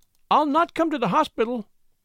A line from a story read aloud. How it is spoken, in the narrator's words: she cried warningly